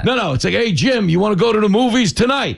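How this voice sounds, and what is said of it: Tough regional accent, like a bookie. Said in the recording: “a lot of women who have my accent ... It sounds like a bookie calling to collect”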